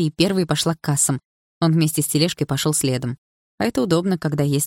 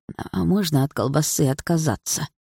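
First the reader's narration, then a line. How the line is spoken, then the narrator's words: Old woman's sigh. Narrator (Russian): вздохнула бабушка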